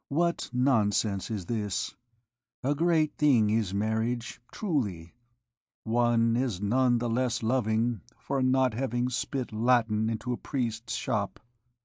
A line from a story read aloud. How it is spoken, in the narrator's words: resumed Phoebus tenderly